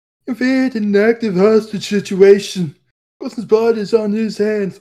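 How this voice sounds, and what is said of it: Funny put-on voice. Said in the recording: “It's such a funny voice.”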